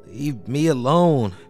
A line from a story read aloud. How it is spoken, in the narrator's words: she gurgled sleepily